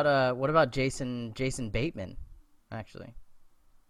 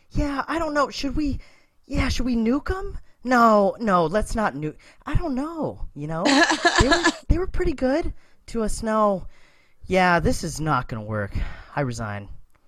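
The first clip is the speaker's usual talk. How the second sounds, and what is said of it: Imitates another person's voice. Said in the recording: “that's a really good impression ... I wanted to do a Jason Bateman impression”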